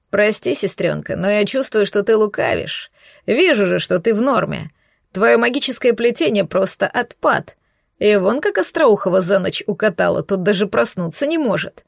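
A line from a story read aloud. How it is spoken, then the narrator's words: Chuckling athlete. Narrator (Russian): хохотнул атлет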